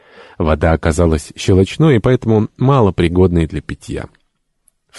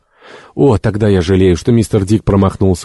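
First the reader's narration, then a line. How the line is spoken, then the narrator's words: Exclamation. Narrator (Russian): воскликнул Джо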